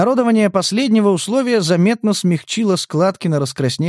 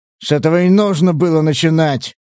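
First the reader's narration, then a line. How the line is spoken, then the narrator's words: Snorting, feigned anger. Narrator (Russian): фыркнул он с показной злобой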